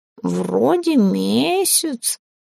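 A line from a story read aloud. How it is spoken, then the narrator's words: Lazy drawl. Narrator (Russian): лениво протянул он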